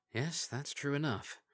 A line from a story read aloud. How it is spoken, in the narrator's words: she muttered